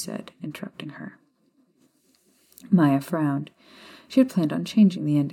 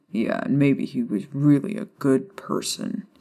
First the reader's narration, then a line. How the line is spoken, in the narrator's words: Sirius said sarcastically